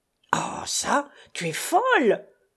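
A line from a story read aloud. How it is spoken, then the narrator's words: Furious shout. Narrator (French): s'écria Pascal furieux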